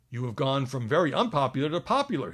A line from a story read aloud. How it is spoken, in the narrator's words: he exclaimed